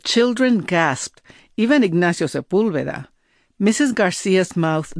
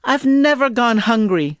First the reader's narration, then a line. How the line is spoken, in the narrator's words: I screamed